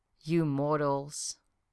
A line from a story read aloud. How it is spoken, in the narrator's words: she said gently